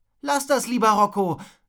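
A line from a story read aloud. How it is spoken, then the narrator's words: Calling to him. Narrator (German): rief Wilma ihm zu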